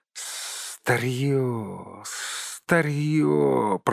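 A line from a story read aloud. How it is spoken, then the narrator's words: Hissed. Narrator (Russian): прошипел он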